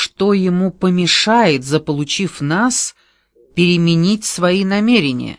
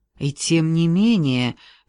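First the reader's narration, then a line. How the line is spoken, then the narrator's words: Soft objection. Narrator (Russian): мягко возразил Шона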